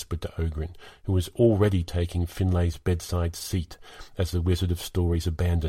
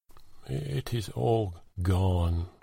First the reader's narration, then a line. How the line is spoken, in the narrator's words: Gethir muttered